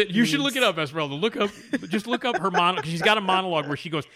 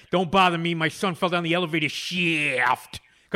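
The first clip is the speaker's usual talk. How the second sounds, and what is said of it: Exaggerated pushed New York accent. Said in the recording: “really exquisite sort of pushed New York accent.”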